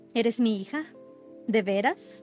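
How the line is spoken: Plain. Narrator (Spanish): preguntó Hester

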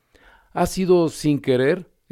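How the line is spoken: Exclaimed, pitiful. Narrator (Spanish): exclamó la pobre Alicia

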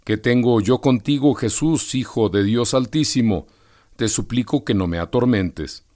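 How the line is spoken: Loud crying out. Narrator (Spanish): gritando con gran voz

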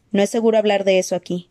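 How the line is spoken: Curt. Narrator (Spanish): dijo Forrest secamente

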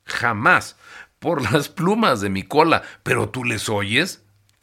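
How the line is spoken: Gleeful shrieking starling. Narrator (Spanish): chilló el estornino aullando alborozado

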